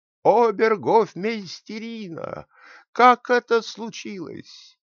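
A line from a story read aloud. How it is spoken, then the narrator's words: Angry loud shout. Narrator (Russian): Рассерженный король громко закричал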